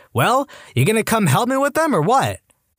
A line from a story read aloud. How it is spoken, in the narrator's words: He yells